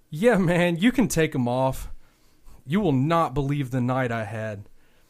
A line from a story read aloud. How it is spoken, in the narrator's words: he offered with a chuckle